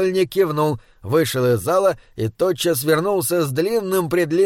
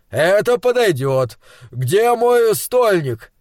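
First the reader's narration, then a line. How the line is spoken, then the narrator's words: Shout. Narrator (Russian): крикнул он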